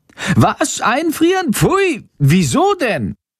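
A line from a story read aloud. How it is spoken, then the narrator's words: Horrified shriek. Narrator (German): kreischt Chando entsetzt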